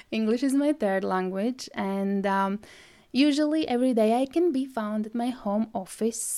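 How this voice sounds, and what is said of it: Latvian-accented English. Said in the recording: “originally I am from Latvia. Well, if you didn't notice my accent”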